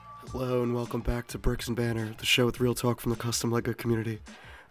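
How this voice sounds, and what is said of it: Hoarse voice from illness. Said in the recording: “as you could tell from my voice, I'm currently under the weather. I've been coughing so much that my vocal cords are not the way they used to be.”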